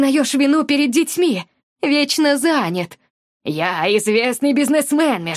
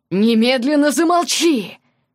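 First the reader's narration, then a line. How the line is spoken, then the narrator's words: Angry growl. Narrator (Russian): Зарычал отец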